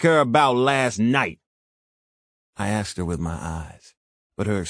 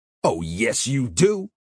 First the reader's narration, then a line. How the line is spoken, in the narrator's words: Roy sneered